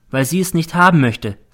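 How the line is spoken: Plain. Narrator (German): sagte sie

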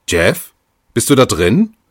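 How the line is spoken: Calling out. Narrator (German): rief sie

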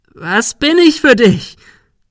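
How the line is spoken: Shriek. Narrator (German): Sarah kreischte

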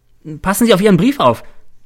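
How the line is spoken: Calling out. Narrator (German): ruft mir Cäsar zu

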